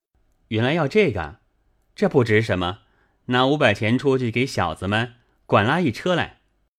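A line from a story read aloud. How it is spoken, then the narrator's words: Laughing. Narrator (Chinese): 宝玉笑道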